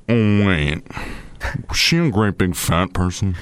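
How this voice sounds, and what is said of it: Buffalo Bill impression. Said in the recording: “that's actually Buffalo Bill ... It's pretty good. It's pretty good. Considering you're out of practice”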